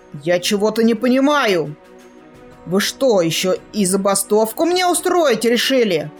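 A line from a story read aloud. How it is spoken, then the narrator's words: Barked shout. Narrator (Russian): Гаркнул он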